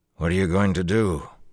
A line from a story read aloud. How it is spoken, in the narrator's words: he said finally